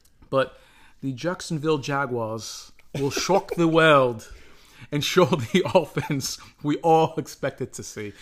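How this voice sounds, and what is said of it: Put-on English accent. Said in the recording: “Amazing English accent.”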